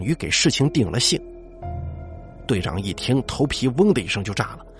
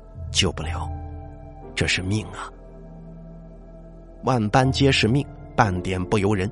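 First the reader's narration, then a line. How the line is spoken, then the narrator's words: Slow, grave after silence. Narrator (Chinese): 邱老皱着眉头，沉默了很久，才缓缓的说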